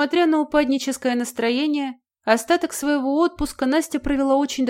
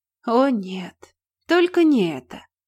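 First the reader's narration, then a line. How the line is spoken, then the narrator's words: Silent inner groan. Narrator (Russian): мысленно простонала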